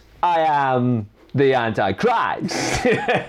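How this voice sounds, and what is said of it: Bad impression of an actor. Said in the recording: “a really bad Christopher Walken impression”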